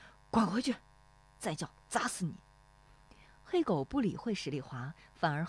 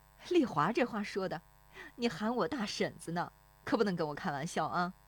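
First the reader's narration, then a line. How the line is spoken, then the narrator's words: Laughing woman. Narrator (Chinese): 那妇女跟着笑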